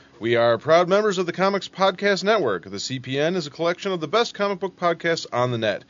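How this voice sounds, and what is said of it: Polished radio announcer voice. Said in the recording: “I love ... announcer voice.”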